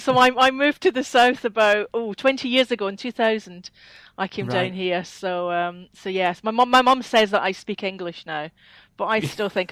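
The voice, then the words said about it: Scottish accent. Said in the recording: “I sound like a Scot ... there's definitely a Scottish accent ... A twang”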